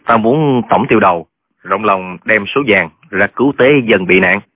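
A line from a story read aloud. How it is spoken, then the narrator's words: Sneering. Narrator (Vietnamese): Trương Thúy Sơn cười khẩy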